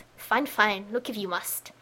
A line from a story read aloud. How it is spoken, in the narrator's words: mutters under his breath